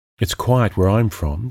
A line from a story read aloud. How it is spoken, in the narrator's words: she said